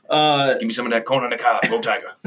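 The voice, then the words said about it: Coach O impression. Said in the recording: “my excellent Coach O impression”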